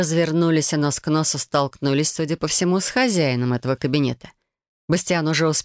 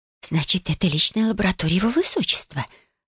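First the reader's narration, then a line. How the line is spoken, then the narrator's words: Whispered question. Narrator (Russian): спросила Годива шепотом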